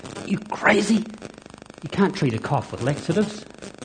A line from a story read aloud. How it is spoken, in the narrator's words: Unable to believe her ears and struggling to maintain her composure, Chris hissed at Alan